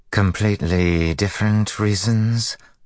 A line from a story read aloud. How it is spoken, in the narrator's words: Lao Wen asked in a flat tone